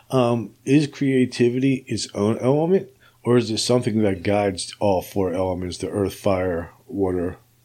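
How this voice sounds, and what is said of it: Strained, fading voice. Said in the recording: “<clears throat> excuse me, I'm losing my voice a little bit today”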